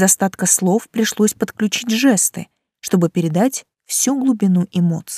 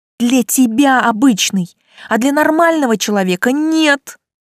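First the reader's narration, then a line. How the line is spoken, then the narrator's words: Yelling. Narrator (Russian): завопила я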